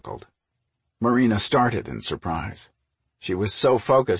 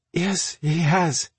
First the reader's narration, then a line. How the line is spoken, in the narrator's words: she said in a slightly breathless voice